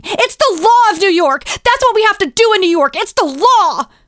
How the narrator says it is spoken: She continued screaming

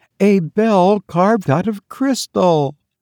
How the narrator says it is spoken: she exclaimed

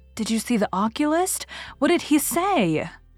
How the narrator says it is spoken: asked Anne anxiously

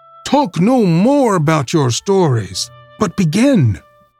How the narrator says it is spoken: cried all the children at once

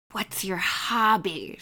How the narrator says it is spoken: She whispered

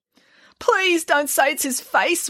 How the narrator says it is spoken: wailed Mrs

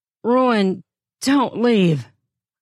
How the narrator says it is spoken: I gasp

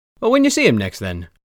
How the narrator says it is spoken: Gaelert happily chirped

